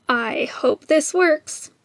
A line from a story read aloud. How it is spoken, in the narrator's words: muttered